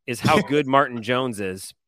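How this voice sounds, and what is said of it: Sarcastic tone. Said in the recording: “being sarcastic”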